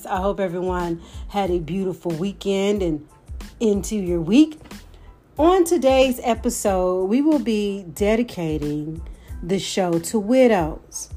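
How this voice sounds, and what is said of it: Slightly off, congested voice. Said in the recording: “my voice sounds just a little bit off, it's because I'm getting over a head cold”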